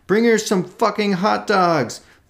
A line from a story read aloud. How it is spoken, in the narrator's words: A lone man broke the collective cheer by cupping his hands to his mouth and bellowing